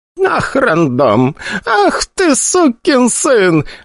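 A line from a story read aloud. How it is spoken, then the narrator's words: Laughing loudly. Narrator (Russian): расхохоталась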